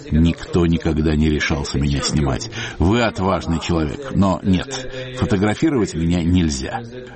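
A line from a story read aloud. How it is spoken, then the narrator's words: Laughing. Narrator (Russian): Он рассмеялся и сказал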